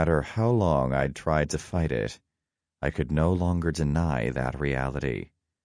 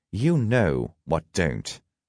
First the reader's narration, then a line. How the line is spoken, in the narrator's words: he snapped